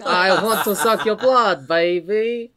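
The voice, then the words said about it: Austin Powers-style Dracula voice. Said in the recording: “my Austin Powers Dracula impression ... that's good”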